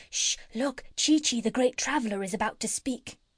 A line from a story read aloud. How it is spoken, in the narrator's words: all the others whispered